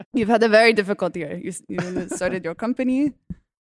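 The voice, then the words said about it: Put-on Transylvanian-sounding accent. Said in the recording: “I don't know what accent I'm doing now. ... it's like Transylvania now”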